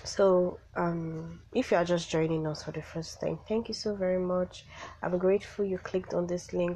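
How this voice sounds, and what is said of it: Sick-sounding voice. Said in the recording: “I'm so sorry my voice is like this. I'm feeling sick”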